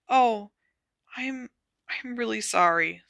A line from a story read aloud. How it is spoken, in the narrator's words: said Hermione in a very small voice